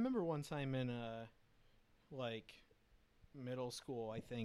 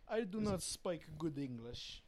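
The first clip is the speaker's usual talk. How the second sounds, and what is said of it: Mock Russian accent. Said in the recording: “I usually think Russian accent is what it goes to for me.”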